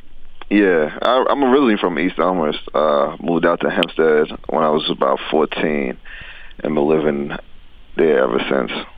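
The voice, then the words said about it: New York accent. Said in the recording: “you could hear the New York accent.”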